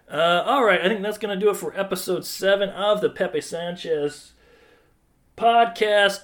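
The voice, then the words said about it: Sick-sounding voice. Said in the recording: “I'm pretty sure I am getting sick. I can hear it in my voice.”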